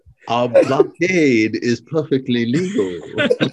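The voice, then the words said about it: Put-on Asian accent. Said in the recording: “my attempt at an Asian accent. I was trying to take on the role of the Mandarin.”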